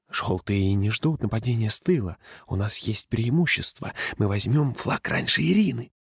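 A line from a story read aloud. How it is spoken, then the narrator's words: Feverish whisper. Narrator (Russian): Женя лихорадочно шептал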